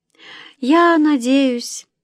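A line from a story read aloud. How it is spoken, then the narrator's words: Sighing. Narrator (Russian): мама вздохнула и добавила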